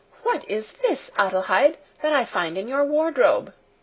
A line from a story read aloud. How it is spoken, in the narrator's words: she exclaimed